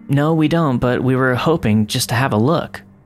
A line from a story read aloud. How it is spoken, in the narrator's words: I said